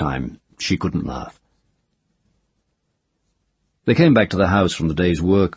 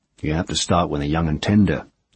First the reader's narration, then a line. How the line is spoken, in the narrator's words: Ged said